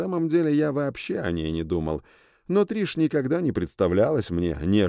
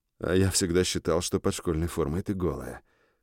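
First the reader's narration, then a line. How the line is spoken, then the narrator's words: Muttered reply. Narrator (Russian): пробормотал я в ответ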